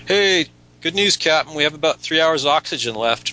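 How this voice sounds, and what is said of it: Put-on accent. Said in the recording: “That accent really wore me out.”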